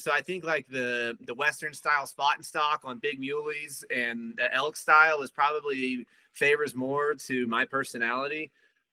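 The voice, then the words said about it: Fast, energetic talking. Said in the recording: “obviously you can hear it in my voice. I talk a lot. I talk fast. I'm long-winded. I'm a go-go type of guy.”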